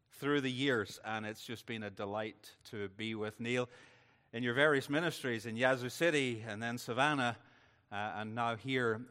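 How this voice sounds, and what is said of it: Mild Northern Irish accent. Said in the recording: “you've got twice as strong a Northern Irish accent as I have ... So I, am losing it ... as I travel, I'm, I'm certainly losing that accent”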